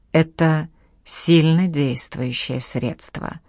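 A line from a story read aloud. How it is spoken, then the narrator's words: Rough mannish female voice. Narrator (Russian): сказала она грубым голосом, который вполне мог принадлежать мужику, а не женщине, пусть даже очень напоминавшей мужика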